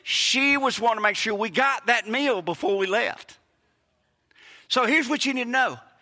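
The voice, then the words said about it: Southern US accent. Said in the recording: “born in Hattiesburg, raised, you know, accent never changed”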